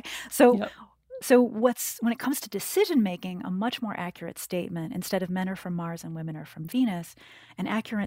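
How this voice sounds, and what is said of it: American accent. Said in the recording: “people have already figured out from my accent that I live in the United States”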